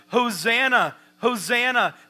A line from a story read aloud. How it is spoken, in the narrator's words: they're shouting